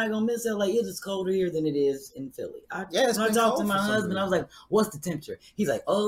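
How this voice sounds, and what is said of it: Usual voice. Nothing is said of it.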